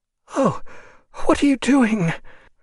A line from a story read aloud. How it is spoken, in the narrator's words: she cried, in a tone as if he had irreparably broken something of priceless value